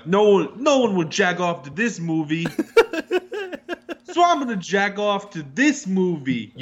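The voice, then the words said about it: Put-on New Jersey accent. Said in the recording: “That's my best Jersey accent.”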